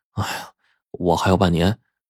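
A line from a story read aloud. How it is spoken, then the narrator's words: Sighing. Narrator (Chinese): 我也叹了口气说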